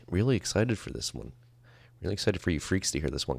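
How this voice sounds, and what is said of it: AM radio announcer voice. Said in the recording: “AM radio voice”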